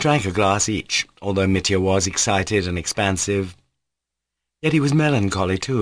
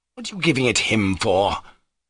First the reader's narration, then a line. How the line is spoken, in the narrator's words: cried Pyotr Ilyich irritably